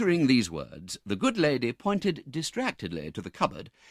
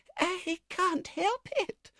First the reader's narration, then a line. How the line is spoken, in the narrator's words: whimpered the lady